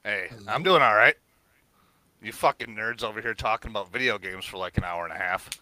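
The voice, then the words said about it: Deep voice. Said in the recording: “Mr. Deep Voice himself”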